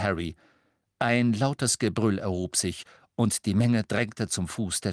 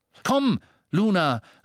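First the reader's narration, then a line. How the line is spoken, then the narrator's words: Calling out. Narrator (German): rief Dean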